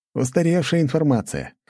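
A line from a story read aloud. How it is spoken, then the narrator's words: Snort. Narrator (Russian): хмыкнул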